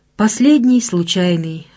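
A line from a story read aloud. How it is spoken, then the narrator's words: Sighed. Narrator (Russian): вздохнул Филин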